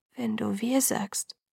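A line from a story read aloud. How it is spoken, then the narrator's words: Whispering. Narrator (German): flüsterte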